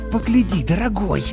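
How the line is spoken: Upset hiss, mother. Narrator (Russian): расстроенно прошипела родительница

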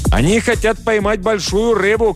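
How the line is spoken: Shout. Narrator (Russian): крикнул нам Джоао

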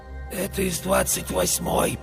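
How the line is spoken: Hoarse voice. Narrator (Russian): послышался сиплый голос

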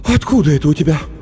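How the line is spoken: Mother's noisy exhale. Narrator (Russian): Мама шумно выдохнула

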